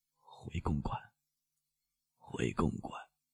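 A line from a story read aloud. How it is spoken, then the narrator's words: Slurred, indistinct mumble. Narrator (Chinese): 他发出不像人声的感叹……只能勉强用难以分辨的声音咕噜着说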